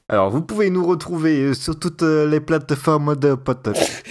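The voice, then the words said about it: Failed put-on accent. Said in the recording (French): “ça marche toujours pas l'accent ... Tu le tiens toujours pas là ... je sais pas en plus c'était quoi cet accent”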